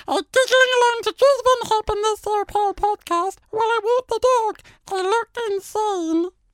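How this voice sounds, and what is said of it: High-pitched helium voice. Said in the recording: “Should I do it again in the helium voice? ... In the helium voice?”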